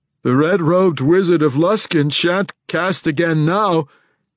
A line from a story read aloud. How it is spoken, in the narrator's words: proclaimed too loudly